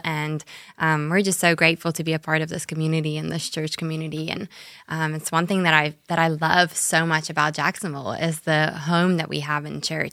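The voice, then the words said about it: South African accent. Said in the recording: “I do have a little bit of an accent still hopefully ... southern accent but a different southern accent it's from south africa”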